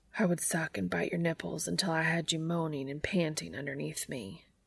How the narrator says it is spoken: whispers

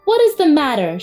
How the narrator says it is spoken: she called out bravely

